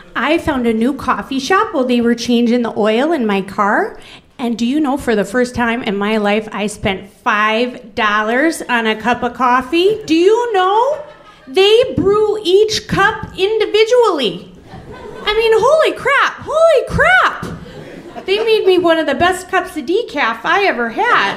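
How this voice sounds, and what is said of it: Fargo-style Minnesota accent. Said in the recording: “She doesn't sound exactly like Fargo, but I'm going to do her voice that way”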